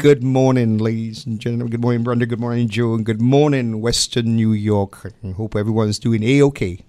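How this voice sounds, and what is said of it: Distinctive accent. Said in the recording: “his very distinctive accent”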